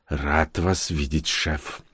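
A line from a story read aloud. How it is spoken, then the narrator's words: Quiet reply. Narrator (Russian): тихо ответил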